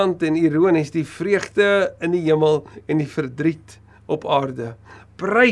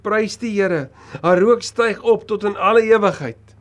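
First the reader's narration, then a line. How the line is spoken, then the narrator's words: Crowd crying out. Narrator (Afrikaans): hulle uitgeroep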